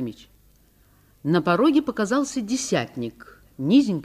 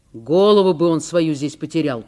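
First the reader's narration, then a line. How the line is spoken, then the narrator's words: Grumbling. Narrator (Russian): проворчал Николай Фомич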